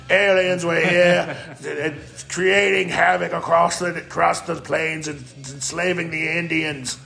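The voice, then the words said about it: Rough British-Australian put-on accent. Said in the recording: “There's my gutter British Australian accent.”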